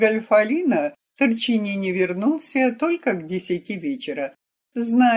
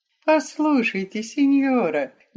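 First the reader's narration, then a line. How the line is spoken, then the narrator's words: Tender, deeply moved. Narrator (Russian): нежно проговорил до глубины души взволнованный Веронец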